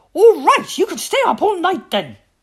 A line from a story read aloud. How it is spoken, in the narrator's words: Mummy Tiger roared